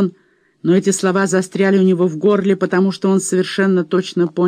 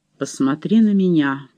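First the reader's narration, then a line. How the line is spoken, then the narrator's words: Commanding interruption. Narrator (Russian): прервал его Боунс голосом, не терпящим возражений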